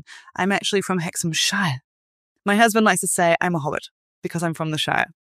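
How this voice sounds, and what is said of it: English accent, Northern shifted toward Southern. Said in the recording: “it is a Northern England accent ... my accent mutated quite a lot. It sounds more Southern England now ... I'm no longer a proper Northerner”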